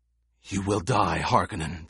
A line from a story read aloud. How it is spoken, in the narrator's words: the gladiator gasped